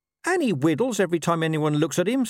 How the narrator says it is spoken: snapped Gaspard

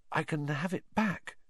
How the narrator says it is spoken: Harry said weakly

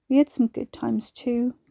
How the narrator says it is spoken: Carrie mumbled, trying to be fair

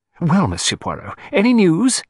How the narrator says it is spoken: he demanded eagerly

